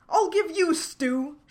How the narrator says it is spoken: shouted

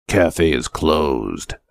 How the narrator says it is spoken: growled, sufficiently gruff

